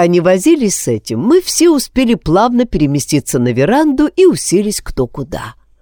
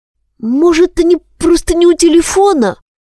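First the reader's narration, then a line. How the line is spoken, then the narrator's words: Timid voice. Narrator (Russian): робко подал голос Кеша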